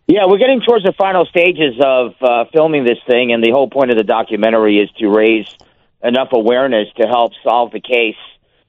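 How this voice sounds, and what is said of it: East Coast American accent. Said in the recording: “I hear that East Coast accent.”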